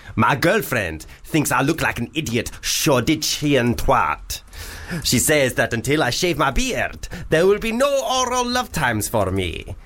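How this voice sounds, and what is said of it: Put-on Arabian accent, pantomime style. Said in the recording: “That was an Arabian accent. ... That was perfect. ... what they all sounded like in Aladdin ... the Panto ... Arabian ... Nights ... Version.”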